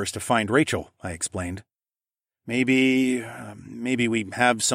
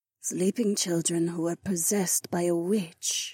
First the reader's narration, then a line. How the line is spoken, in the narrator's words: Jessamine murmured